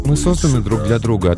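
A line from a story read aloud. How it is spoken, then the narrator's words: Plain, young woman. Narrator (Russian): ответила девушка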